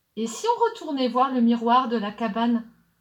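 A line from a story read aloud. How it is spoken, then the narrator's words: Plain. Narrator (French): demanda-t-elle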